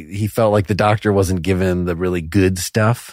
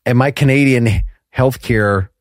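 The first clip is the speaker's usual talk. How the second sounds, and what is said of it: Put-on Minnesota accent. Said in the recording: “I think I'm doing Minnesota. I don't think I'm doing a Canadian accent.”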